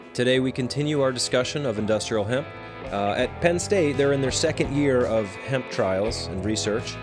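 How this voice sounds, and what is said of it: Voice sounds off, sick with cold. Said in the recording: “my voice is a little wacky today because I'm fighting off a cold.”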